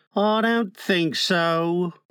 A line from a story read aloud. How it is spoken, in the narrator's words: Slightly, who said mournfully